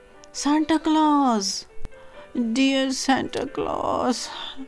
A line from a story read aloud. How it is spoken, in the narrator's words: cried Jimmy Scarecrow with a great sob